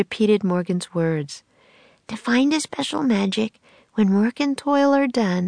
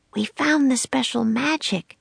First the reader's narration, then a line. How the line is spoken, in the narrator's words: she whispered